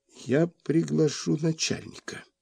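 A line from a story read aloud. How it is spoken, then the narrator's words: Rather uncertain. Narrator (Russian): сказал довольно неуверенно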